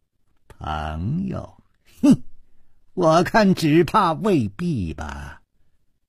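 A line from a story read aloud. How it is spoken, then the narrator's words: Cold sneering reply. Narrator (Chinese): 那个少年也冷笑着说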